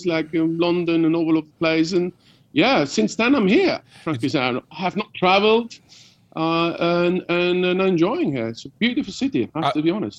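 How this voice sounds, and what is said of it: London geezer accent, not Swiss. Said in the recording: “20 years in London, you do sound like a geezer, innit? ... He does sound like a cop. ... Doesn't sound Swiss, does he?”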